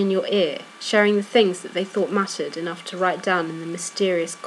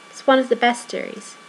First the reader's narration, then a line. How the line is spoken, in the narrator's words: Sam says